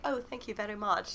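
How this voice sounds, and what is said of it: Put-on proper British accent. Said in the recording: “very in his proper British, you know, accent ... Very British”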